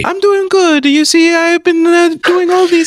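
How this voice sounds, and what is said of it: High-pitched stereotypical Italian accent. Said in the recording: “the stereotypical Italian Canadian American talks ... always high pitched ... That's the only way that voice will come out of my throat”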